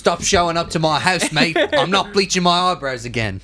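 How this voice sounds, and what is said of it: Attempted Australian accent impression. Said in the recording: “That's not how he talks, but... That's a North. I can't do an Australian accent.”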